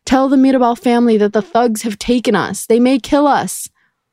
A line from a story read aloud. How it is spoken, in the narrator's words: she ran towards the workers, screaming